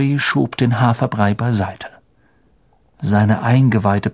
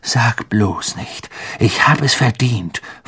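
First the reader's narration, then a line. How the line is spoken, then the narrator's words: Angry snap. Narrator (German): fauchte Ron sie an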